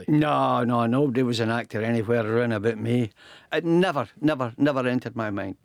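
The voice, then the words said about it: Fife Scottish accent. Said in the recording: “you've still got the accent”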